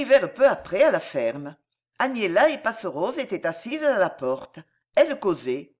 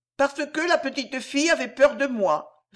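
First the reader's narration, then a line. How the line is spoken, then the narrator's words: Sad trembling voice. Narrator (French): répondit Ourson d'une voix triste et tremblante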